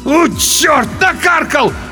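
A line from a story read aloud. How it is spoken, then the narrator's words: Loud howling. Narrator (Russian): В голос взвыл тот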